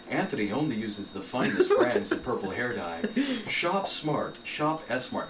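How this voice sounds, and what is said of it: Smooth, elegant radio announcer voice. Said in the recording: “It sounded nice, though. Nice ... And elegant. ... It's my radio voice.”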